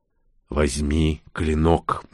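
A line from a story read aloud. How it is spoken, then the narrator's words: Insistent inner whisper. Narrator (Russian): настойчиво шепнула мысль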